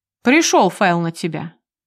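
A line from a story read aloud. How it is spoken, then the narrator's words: Cold tone. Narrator (Russian): сообщает все тем же холодным тоном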